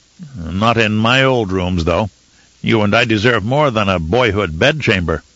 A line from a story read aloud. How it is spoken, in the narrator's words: With a small chuckle, he said